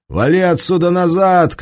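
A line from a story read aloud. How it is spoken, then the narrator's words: Shouting. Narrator (Russian): крикнул водила Урала, лежащий на дороге прапорщик в лохматой каске и солнечных очках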